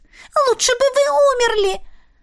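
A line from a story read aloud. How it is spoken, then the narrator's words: Desperate shriek. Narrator (Russian): Отчаянно взвизгнула она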